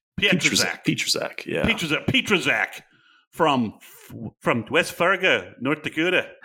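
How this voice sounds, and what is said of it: Put-on Minnesota accent. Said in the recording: “trying to do a Minnesota accent, courtesy of the Fargo TV show”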